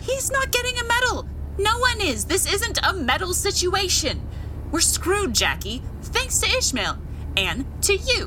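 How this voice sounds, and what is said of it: Yelling angrily. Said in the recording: “I'm yelling”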